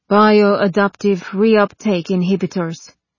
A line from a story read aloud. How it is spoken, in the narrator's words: sighed a little, and then supplied